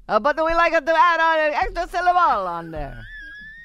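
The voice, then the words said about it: Put-on Italian accent. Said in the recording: “An accent that ... performing there for you now. ... I'm so awesome at Italian accent.”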